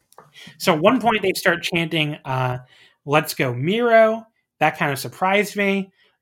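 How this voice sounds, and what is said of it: Hoarse, strained voice. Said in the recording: “Why am I losing my voice when I haven't even done a show in 2 weeks? I can't tell you, but apparently I am.”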